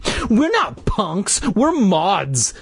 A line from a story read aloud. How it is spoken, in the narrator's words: the heavier boy shouted angrily